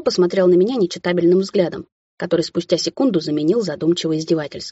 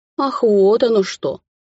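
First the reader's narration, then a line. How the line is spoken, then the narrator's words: Drawn-out drawl. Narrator (Russian): протянул он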